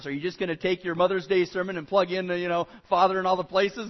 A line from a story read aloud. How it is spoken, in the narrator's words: And I kind of chuckled